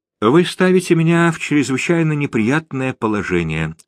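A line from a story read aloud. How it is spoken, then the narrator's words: Sighing after long pause. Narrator (Russian): вздохнул Святослав Игоревич после продолжительной паузы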